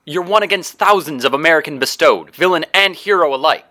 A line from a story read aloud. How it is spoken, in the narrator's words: she shouted